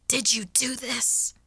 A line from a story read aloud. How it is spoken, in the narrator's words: I snapped hoarsely